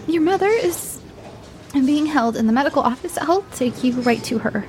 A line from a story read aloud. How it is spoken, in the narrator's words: squeaked out